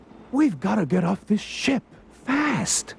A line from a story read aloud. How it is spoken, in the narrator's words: cried Ralph